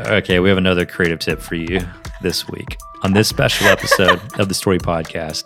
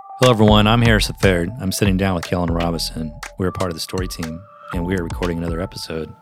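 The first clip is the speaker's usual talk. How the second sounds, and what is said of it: Flat monotone delivery. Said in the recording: “you sound so monotone?”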